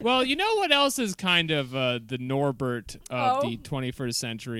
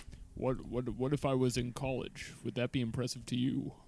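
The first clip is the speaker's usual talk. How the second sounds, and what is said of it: Imitates another person's voice. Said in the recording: “Great Winklevoss impression.”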